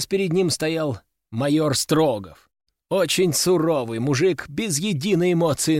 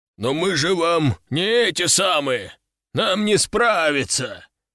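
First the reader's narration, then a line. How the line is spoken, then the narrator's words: Deep bass growl. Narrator (Russian): все так же басовито рычал мужчина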